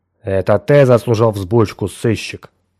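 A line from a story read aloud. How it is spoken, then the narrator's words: Stern interruption. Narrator (Russian): строго перебил его Дженкинс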